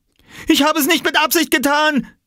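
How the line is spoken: Shouted. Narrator (German): schrie er

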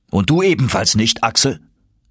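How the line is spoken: Uncle calling out. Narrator (German): rief mein Onkel

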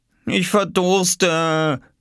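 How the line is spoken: Whining. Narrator (German): jammerte Oskar

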